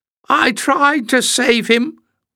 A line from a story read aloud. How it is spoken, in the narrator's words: wailed the rolling figure on the floor